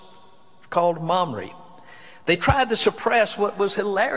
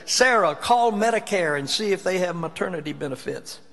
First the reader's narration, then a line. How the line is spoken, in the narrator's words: Abraham spoke up and said